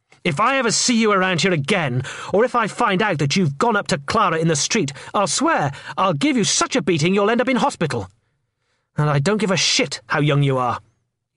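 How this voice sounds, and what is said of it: Cold, menacing voice. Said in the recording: “in a cold voice.”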